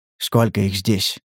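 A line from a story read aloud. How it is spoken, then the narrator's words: Low-voiced question. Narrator (Russian): спросил он вполголоса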